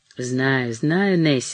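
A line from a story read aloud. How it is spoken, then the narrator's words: Quiet soothing voice. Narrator (Russian): сказала Мэри тихо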